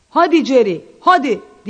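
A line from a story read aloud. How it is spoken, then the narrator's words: Shouted. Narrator (Turkish): diye bağırdı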